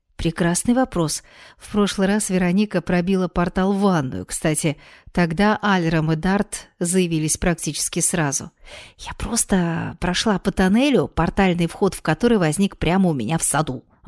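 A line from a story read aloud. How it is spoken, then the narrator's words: Plain. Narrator (Russian): ответила Вероника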